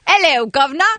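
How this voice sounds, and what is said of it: Mary Poppins-style cockney British accent. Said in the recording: “give us a British accent ... she sounds like Dick Van Dyke and Mary Poppins automatically. It's like a chimney sweep.”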